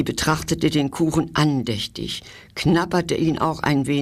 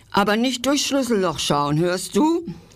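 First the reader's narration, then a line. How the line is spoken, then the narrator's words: Mouse calling after. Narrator (German): rief die Maus hinter ihm her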